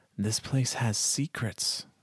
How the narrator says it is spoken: the prince murmurs back

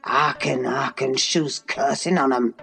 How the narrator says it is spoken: muttered Joseph

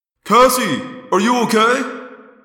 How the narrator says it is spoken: Jake yelled

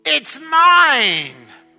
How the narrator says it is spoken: screamed the bird when she heard the egg crack

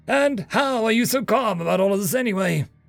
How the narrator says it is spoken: I laughed

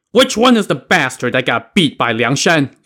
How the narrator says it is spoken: Lu Zhishen shouted

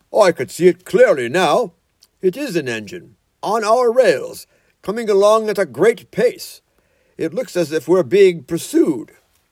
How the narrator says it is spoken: Presently he called out

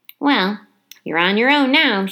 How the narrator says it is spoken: she said

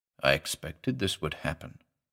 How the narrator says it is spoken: he said gravely

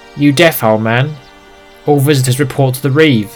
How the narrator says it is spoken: snapped with youthful bravado

